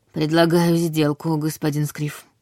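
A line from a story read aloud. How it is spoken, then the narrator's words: Husky voice. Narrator (Russian): сипло произнесла я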